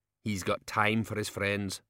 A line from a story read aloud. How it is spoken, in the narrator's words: said Medium Dave bitterly